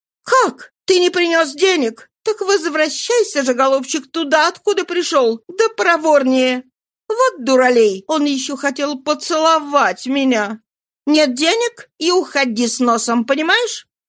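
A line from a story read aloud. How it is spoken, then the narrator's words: Frightened scream. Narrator (Russian): Побледнев как полотно, она закричала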